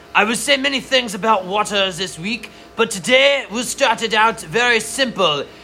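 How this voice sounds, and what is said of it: Put-on accent, not very good. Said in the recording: “how's your accent today? ... Not good.”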